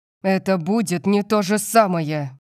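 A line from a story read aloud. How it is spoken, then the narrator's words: Growl into pillow. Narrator (Russian): прорычал Калиб, натягивая подушку на лицо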